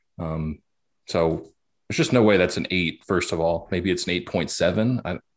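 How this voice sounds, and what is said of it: Frustrated, exasperated tone. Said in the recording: “you hear the frustration in my voice?”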